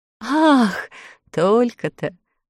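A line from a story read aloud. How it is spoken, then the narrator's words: Laughing. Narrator (Russian): рассмеялся Ильсор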